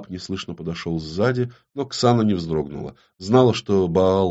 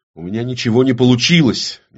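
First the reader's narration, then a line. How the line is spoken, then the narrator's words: Very nervous outburst. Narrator (Russian): неожиданно нервно, очень-очень нервно выкрикнула Ксана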